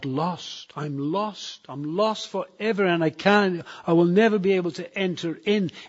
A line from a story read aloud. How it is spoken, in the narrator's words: I cried out